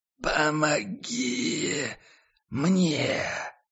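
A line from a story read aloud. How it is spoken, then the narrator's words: Sudden hoarse voice. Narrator (Russian): Послышался вдруг сиплый голос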